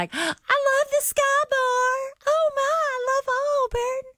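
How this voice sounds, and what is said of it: Imitates a tipsy woman's voice. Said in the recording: “good impression of the impression that Lauren did of her. And she was a little tipsy.”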